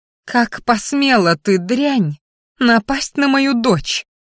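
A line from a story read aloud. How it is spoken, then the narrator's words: Angry hiss. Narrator (Russian): Зашипела она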